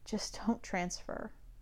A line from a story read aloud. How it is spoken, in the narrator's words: Hecate swallows, mutters breathlessly